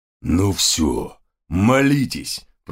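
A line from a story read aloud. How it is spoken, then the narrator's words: Sergeant growling. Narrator (Russian): прорычал сержант Гавкинс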